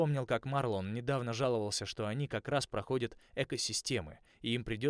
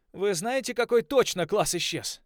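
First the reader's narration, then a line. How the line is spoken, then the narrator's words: Cracking shout over radio. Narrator (Russian): крикнул я срывающимся голосом в рацию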